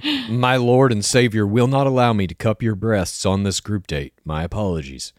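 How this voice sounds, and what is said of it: Weird put-on Southern accent. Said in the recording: “Why are we giving him a weird Southern accent, Sean Lowe?”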